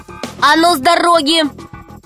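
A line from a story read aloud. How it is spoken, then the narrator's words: Shout. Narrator (Russian): крикнул Пашка змее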